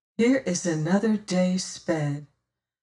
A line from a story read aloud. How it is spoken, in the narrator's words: says my companion softly at last